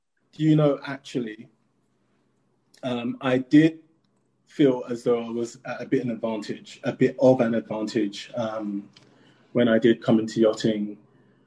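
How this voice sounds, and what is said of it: Posh-sounding accent. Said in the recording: “your accent ... more posh sounding”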